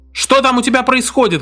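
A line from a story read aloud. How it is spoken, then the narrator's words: Shouted. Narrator (Russian): крикнул он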